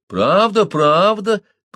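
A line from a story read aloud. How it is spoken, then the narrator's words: Drawn-out, near tears. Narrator (Russian): протянула Ития, надув губы, словно собираясь заплакать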